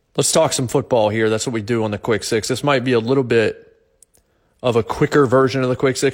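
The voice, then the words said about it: Worn, strained voice. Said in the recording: “my voice is still a little bit shot from doing 4 hours of the Jason Martin Show yesterday”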